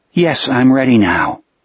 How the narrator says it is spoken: Jack said in a perfectly calm voice

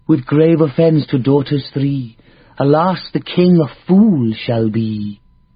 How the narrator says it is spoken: said the giant in a lilting female voice

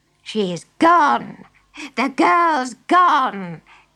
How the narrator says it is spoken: cackled the witch

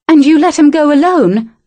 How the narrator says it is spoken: Amelia cried

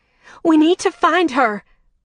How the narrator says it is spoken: Winter screamed again

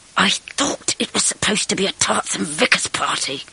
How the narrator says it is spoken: hissed

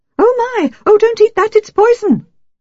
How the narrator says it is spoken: squeaked Renaud shrilly

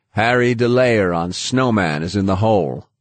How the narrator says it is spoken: the gate master called out

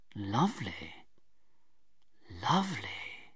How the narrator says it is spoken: he said softly

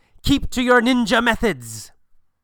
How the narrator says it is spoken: the master yells

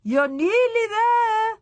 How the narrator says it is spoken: she called out

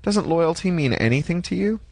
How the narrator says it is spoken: Fede laughed nastily

